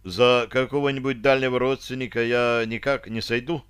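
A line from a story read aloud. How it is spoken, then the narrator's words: Timid suggestion. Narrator (Russian): робко предложил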